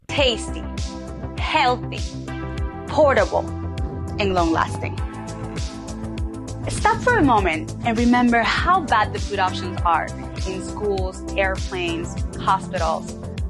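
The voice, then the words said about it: Heavy foreign accent. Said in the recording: “She has kind of a heavy accent”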